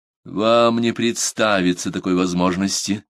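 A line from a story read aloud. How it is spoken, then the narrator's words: Indifferent tone. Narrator (Russian): проговорил Мэсон безразличным тоном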